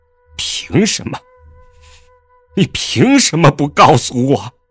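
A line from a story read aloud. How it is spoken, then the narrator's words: Crying through gritted teeth. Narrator (Chinese): 江城哭了，他一边从眼中流下泪，一边咬牙切齿地道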